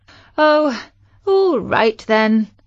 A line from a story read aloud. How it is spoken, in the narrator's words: sighed Chloe